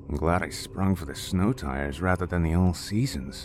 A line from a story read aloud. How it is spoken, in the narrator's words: James said under his breath